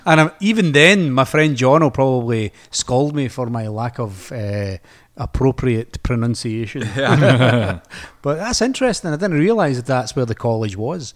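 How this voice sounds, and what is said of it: Speaker's own regional accent. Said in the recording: “sounds much better in your accent than mine.”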